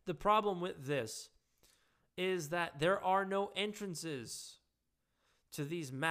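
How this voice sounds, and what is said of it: Usual voice. Nothing is said of it.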